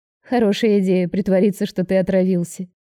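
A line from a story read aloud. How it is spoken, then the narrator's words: Giggling. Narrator (Russian): хихикаю я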